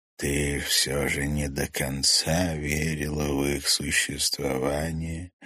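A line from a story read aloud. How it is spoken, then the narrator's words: Gentle question. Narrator (Russian): мягко спросил хозяин леса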